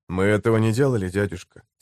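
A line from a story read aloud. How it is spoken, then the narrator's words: Plain. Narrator (Russian): сказал Коул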